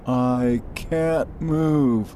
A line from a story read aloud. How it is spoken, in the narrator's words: Marcus moaned